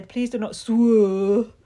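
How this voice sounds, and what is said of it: Mock impression of AJ's accent. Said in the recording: “Your impression? ... You can't take the piss out of her accent. That's her accent”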